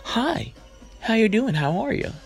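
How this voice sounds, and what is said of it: Put-on white man voice. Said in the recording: “Put on my white man voice,”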